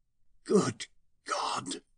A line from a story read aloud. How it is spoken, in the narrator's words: I whispered